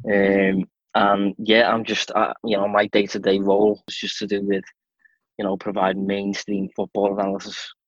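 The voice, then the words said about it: Strong Scouse accent. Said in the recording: “I have a very strong Scouse accent”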